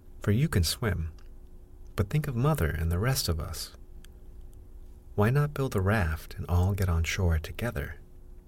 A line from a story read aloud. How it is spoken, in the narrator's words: exclaimed Ernest